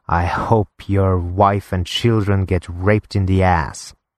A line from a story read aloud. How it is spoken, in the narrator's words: hissing